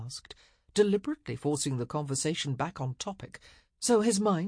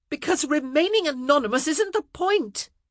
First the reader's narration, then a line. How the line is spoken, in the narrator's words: she fairly yelled